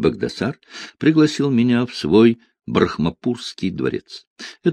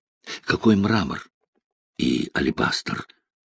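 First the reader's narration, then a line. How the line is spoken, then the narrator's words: Whispered question. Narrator (Russian): шепотом спросил он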